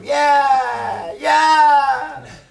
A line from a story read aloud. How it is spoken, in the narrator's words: they just screamed out